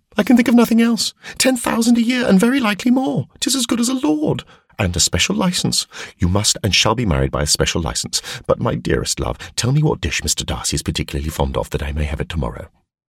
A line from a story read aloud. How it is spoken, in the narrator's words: cried